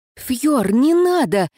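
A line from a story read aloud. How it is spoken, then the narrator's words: Silent mental exclamation. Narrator (Russian): мысленно воскликнула я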